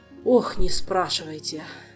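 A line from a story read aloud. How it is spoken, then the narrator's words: Sigh. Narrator (Russian): вздохнул наставник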